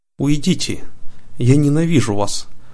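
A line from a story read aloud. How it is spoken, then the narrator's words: Tearful exclamation. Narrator (Russian): сквозь слезы воскликнула принцесса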